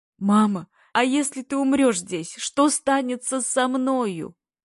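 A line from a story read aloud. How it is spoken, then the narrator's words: Uncontrollable sobbing. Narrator (Russian): зарыдал неудержимо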